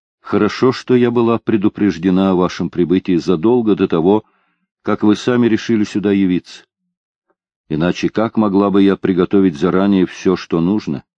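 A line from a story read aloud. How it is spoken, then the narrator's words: Loud. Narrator (Russian): громко произнесла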